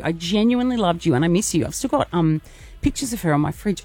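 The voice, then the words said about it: Emotional voice. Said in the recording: “getting emotional.”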